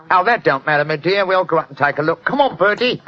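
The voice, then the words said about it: Put-on Cockney accent. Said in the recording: “my Cockney accent doesn't compare with yours.”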